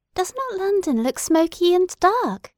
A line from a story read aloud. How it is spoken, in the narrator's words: exclaimed Edith